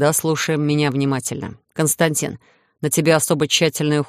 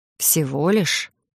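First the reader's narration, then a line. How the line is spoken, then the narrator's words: Quiet muttered snort. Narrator (Russian): Я тихо хмыкнула себе под нос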